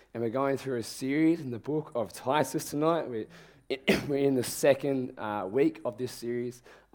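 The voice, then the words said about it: Strained, failing voice. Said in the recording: “as you can probably tell, my voice is not going to hold up for much longer ... my voice itself fails”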